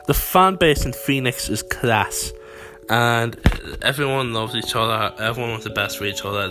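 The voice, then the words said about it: Speaks with a noticeable accent. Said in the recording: “I cannot say it with my accent”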